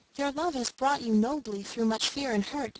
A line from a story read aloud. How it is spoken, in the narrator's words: they said